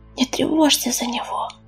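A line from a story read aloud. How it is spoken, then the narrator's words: Whispering. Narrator (Russian): прошептала Белочка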